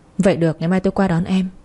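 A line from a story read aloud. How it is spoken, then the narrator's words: Soft laugh. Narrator (Vietnamese): Dương khẽ cười một cái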